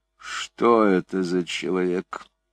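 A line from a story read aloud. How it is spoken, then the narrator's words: Muttered through teeth. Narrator (Russian): пробормотал он сквозь зубы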